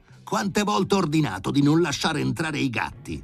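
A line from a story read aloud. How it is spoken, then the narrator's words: Furious shouting. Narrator (Italian): si mise a gridare Filippo Filippovic in preda alla furia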